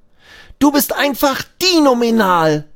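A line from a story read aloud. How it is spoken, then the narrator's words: Called out. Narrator (German): ruft Abi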